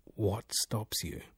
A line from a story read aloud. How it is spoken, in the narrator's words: His voice was low and inquiring